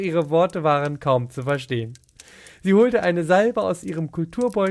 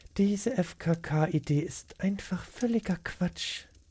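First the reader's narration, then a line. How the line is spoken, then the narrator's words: Sighing murmur. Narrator (German): Beate seufzte und murmelte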